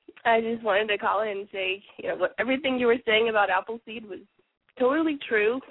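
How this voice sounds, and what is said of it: Congested, stuffy-sounding voice. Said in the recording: “I have a bad cold”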